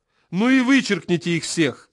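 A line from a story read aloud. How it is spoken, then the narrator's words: Shouting. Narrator (Russian): закричал Смерчев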